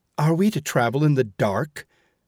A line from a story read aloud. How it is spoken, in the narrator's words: called the passengers angrily